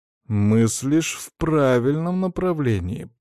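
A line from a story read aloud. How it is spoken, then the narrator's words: Drawn-out drawl. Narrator (Russian): протянул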